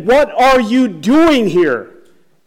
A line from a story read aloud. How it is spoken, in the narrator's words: he yells at him again